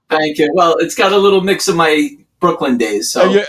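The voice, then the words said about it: New York accent. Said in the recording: “I love your accent ... that like authentic New York thing”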